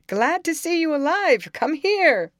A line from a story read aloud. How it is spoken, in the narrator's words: directly afterwards Le Jolie shouted out